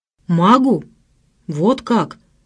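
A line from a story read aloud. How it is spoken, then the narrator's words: Hoarse, strangled voice. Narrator (Russian): сказал он хриплым, сдавленным голосом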